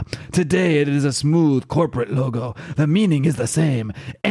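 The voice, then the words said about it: Strained, poorly done put-on accent. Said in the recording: “I am not going to continue trying to do this accent because it's hurting my throat ... my bad impression.”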